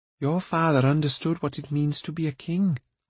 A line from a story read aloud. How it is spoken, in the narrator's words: Ailanwy said gently